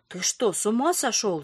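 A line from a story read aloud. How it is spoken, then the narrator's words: Hissing. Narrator (Russian): зашипела Карташова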